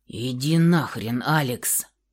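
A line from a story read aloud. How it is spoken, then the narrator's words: Close-up growl. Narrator (Russian): рыкнул прямо в губы девушки Михаил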